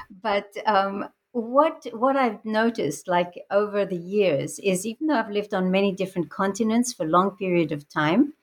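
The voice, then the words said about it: Mixed international accent. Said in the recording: “I have a very mixed international background, and I think that's reflected in my sort of strange accent.”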